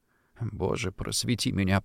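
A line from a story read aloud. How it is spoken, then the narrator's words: Muttering. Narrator (Russian): пробормотал я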